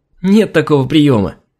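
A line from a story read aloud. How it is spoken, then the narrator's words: Cheerful laughter. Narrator (Russian): Весело засмеялась Алина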